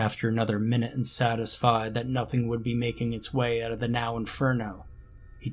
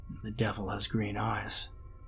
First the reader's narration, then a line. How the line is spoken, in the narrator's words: He murmured seemingly to himself